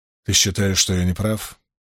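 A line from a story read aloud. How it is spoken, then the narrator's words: Quiet question. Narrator (Russian): тихонько спросил Перин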